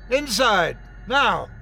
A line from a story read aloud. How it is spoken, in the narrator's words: shouted Omar